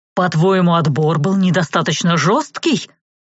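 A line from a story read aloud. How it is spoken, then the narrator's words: Growl, sergeant. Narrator (Russian): рыкнул на сержант Хайлик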